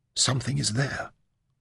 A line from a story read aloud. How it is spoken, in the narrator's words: She whispered fearfully